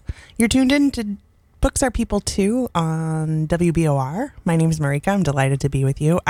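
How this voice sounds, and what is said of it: Congested, stuffy-sounding voice. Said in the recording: “I can hear the congestion in my voice.”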